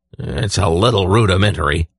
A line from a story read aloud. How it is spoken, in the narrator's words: Belden growled